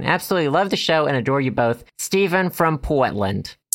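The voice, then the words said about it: Put-on Boston accent. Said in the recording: “Is that a Portland accent? ... I didn't know Portland was in Boston, Massachusetts.”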